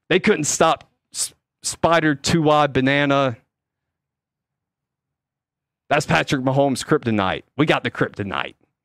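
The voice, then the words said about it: Jon Gruden impression. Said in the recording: “my Jon Gruden impression”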